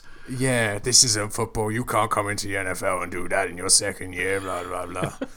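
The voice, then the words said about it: Impression of grumpy old football purist. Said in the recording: “So it's a great impression. It is a great impression.”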